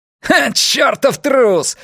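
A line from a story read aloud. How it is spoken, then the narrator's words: Yelling. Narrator (Russian): орал Андерс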